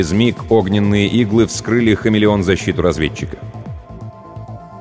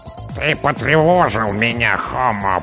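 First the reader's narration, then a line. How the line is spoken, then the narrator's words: Creaky grating voice. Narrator (Russian): проскрипела командная голова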